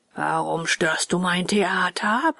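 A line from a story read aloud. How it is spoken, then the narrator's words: Rough, creepy ogre-like roar. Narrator (German): brüllte der Direktor den Bengele an, und seine Stimme war so rau und gruselig wie die eines Menschenfressers, wenn er den Schnupfen hat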